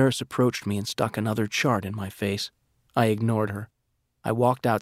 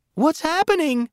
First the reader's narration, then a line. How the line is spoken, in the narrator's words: cried